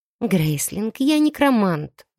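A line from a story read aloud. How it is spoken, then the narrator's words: Sighing reminder. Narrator (Russian): вздохнув, напомнила я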